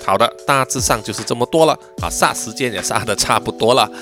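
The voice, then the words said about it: Mandarin with Malaysian Cantonese accent. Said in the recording (Chinese): “叔叔呢，其实是有马来西亚粤语的这个口音啊”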